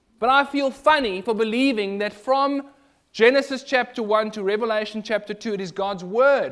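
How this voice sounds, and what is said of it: Speaker's own non-American accent. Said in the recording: “my accent's funny? ... So I know, my accent is funny.”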